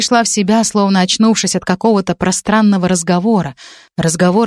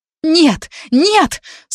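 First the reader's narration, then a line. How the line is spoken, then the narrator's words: Screaming. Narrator (Russian): снова закричала я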